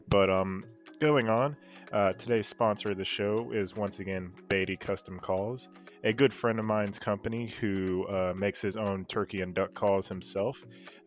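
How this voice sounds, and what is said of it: Sniffly voice with a cold. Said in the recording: “I apologize for these slight sniffles. I have a little bit of a cold.”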